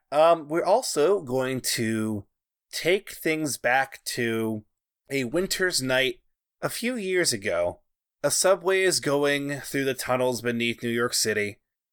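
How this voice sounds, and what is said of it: Rough, strained voice. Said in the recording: “My voice is a little bit fucky right now. I did a lot of yelling ... So my voice is kind of messy.”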